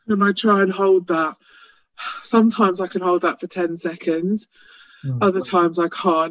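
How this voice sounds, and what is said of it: Out of breath. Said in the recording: “You can hear I'm a bit out of breath from that”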